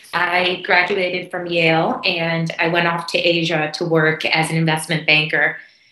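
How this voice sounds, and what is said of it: American accent. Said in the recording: “I grew up in the U.S., which you can probably hear from my accent.”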